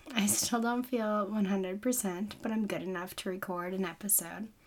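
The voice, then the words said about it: Weird voice from sore throat. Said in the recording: “a sore throat and a weird voice ... excuse any weirdness in my voice. I know it's not normal”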